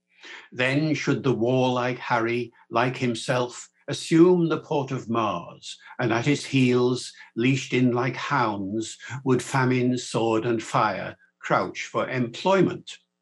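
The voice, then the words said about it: Classic stage Shakespearean English accent. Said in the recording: “that's the accent in which most people have heard Shakespeare... Laurence Olivier, John Gielgud, and all the famous actors”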